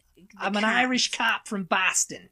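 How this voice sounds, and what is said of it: Boston accent with Irish flavor. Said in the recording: “Like the Boston accent... Hear a little bit of Irish in there... Irish beat cap... I'm doing a very good impression of Eddie Deason”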